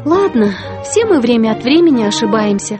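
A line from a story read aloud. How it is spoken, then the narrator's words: Sighing. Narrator (Russian): вздохнула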